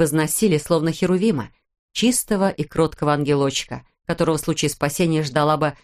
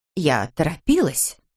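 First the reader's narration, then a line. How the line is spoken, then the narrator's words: Sharp declaration. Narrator (Russian): резко заявила Ширли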